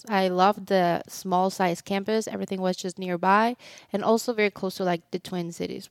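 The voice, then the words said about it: Slight Mexican accent. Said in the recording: “people can hear it in the accent a little bit ... you're from Mexico, grew up near Mexico City”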